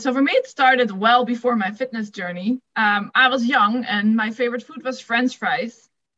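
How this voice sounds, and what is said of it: Dutch accent. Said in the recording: “if you didn't pick up my accent, I'm from the Netherlands.”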